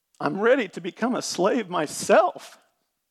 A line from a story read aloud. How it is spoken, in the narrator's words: pleaded